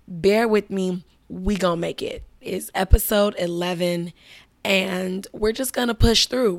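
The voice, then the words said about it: Damaged, rough-sounding voice. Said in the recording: “clearly you can tell my voice sounds ridiculous right now ... My voice has been fucked up since Croatia ... I cannot get my voice right”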